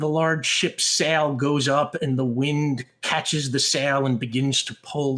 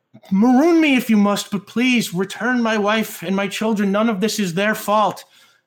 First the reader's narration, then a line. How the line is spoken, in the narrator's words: Murr shouts back